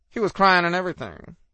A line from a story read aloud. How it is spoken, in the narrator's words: Gary said haughtily